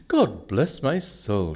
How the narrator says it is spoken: he exclaimed

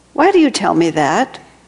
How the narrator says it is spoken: Master demanded indignantly

